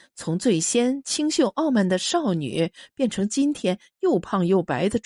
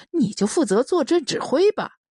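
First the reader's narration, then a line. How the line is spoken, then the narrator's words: Laughing, several voices. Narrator (Chinese): 一个个都笑说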